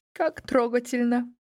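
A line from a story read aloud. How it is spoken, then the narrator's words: Sobbed. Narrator (Russian): всхлипнула Мали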